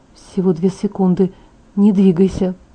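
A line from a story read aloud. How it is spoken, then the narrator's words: Whisper. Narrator (Russian): прошептал он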